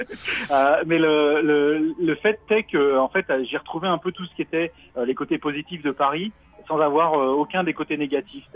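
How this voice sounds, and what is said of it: Parisian French accent. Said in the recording (French): “moi je suis parisien à la base. Euh, ça s'entend peut-être avec l'accent ... Je confirme. ... je l'ai pas perdu.”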